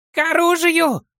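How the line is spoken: Full-voiced shout. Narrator (Russian): выкрикнуть он, уже не таясь, в полный голос

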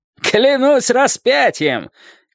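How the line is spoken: Shouted. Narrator (Russian): крикнул он

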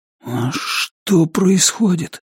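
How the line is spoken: Barely audible question. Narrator (Russian): спросил Ричард еле слышно

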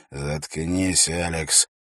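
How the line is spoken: Angry hiss. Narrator (Russian): гневно прошипел Эрак

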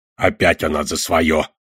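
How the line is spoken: Grumbling. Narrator (Russian): проворчал Одноглазый

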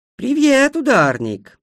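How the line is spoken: Cheerful. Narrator (Russian): весело сказала она

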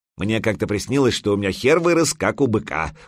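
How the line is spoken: Snorting. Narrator (Russian): хмыкнул Грипюр

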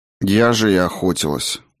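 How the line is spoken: Grumbling. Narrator (Russian): буркнула Клара

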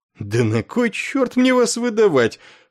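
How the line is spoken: Surprised exclamation. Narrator (Russian): с удивлением воскликнул врач

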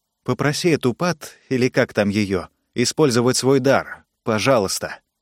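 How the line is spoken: Quiet but insistent. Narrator (Russian): негромко, но настойчиво сказала Венди Райт

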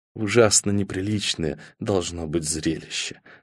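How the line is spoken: Dull, dead whisper. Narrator (Russian): сказала она тусклым, мертвым шепотом и без толики черного юмора

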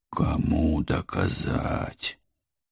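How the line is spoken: Tired pleading. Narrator (Russian): Устало взмолился я

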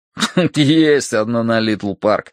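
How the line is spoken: After laughing. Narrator (Russian): отсмеявшись, сказал Долговязый

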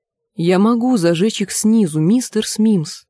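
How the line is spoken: Quiet. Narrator (Russian): тихо сказал Нат

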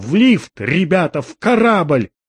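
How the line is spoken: Shouting. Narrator (Russian): Сэм закричал

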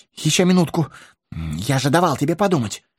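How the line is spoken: Babbling, faltering. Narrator (Russian): Пролепетал хоббит

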